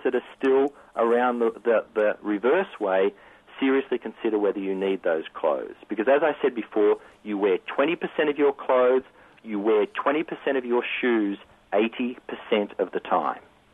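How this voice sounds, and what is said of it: Australian accent. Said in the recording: “Are you from Australia or Australia? ... Or New Zealand? ... I jokingly say I'm from Alabama with this accent, but you nailed it. It's Australia. ... I just can't shake this accent”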